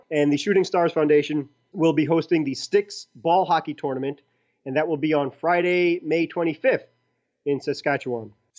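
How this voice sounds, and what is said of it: Brooklyn accent. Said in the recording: “I'm from Brooklyn, so my accent overrides everything, and it's not intentional”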